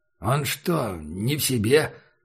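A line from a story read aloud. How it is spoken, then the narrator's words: Muttering. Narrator (Russian): пробормотал шериф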